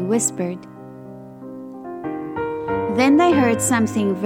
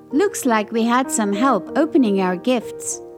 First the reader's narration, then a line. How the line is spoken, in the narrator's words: Roger said with a chuckle